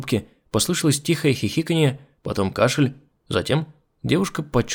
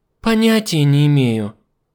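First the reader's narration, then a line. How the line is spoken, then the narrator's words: Sigh. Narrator (Russian): вздохнула оператор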